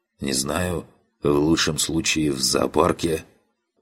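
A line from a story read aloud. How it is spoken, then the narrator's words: Hoarse croak. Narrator (Russian): прохрипел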